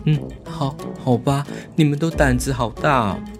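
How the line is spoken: Helpless, barely audible whisper. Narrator (Chinese): 郑大海无奈地 用自己才能听到的声音，偷偷的小声地说

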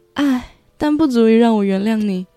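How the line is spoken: Crying woman. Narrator (Chinese): 女主边哭边说

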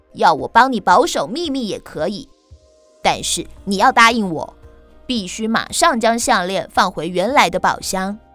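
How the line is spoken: Cold, feigned haughtiness. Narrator (Chinese): 故意装出一副神气的样子，冷冷地说

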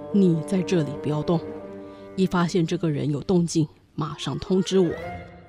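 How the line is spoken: Whispering in ear. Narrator (Chinese): 维克多在夫人耳边轻声说

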